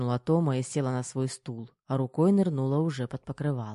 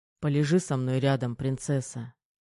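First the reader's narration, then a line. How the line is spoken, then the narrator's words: Soft request. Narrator (Russian): тихо попросил Кир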